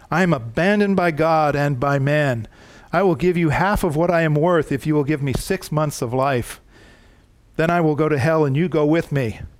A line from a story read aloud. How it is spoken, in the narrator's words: Voltaire cried out with utter desperation